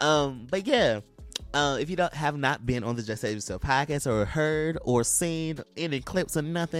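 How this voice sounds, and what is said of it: Usual voice. Nothing is said of it.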